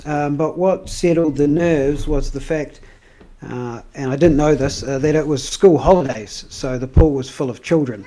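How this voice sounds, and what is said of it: Sarcastic tone of voice. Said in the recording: “if you can't hear the sarcasm in my voice, I'm very sarcastic”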